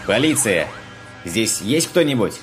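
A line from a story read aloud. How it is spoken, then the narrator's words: Loud question. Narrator (Russian): Спросил громко майор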